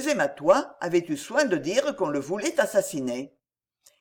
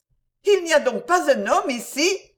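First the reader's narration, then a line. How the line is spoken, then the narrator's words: Exclaiming. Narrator (French): s'écria-t-elle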